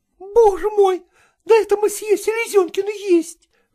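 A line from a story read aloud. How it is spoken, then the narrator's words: Women singers exclaiming. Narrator (Russian): воскликнули певицы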